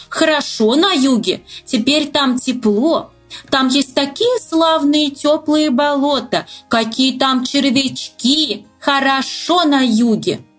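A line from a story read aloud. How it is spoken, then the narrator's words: Deafening shouts. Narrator (Russian): Они так кричали, что почти оглушили лягушку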